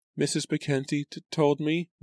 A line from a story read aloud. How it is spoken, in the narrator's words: Lucy stammered